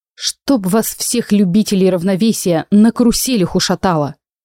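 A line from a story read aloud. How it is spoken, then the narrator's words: Grumpy mutter. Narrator (Russian): буркнула я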